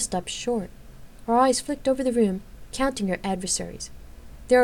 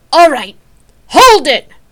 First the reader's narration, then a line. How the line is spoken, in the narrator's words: She let out a fierce bellow